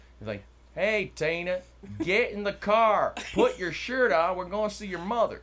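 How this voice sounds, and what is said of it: Put-on Southern US accent. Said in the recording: “I can do all kinds of southern ... Same exact sentence, but okay. Southern.”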